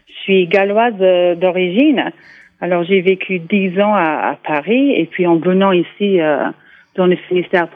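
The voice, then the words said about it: English accent speaking French. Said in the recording (French): “je remarque votre accent anglais ... j'ai gardé mon accent”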